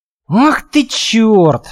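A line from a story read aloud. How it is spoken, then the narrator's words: Breathless exhale. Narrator (Russian): выдохнул Белкин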